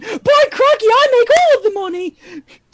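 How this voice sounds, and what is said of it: Old British woman character voice. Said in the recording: “Similar to your Adele accent ... you just want me to talk in my old woman voice, but as a British woman”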